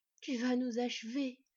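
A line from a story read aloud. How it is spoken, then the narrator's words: Panted. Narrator (French): haleta Sylveig aux yeux verts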